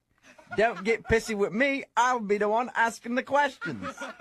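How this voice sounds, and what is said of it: Weak put-on English accent. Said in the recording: “I just wanted to try out my accent... on a scale of 1 to 10, I'd give you about a 4.5... fascinated with my accent”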